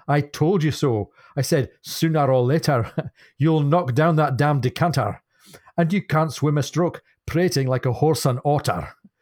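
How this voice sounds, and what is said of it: Poor put-on Scottish accent. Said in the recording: “Scottish intonation ... my terrible accent”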